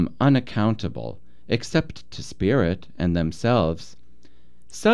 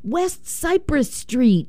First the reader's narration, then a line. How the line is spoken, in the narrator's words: he shouts, as if your being there and his seeing you were some sort of benediction